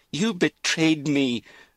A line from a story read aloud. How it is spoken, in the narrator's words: Lizzie cried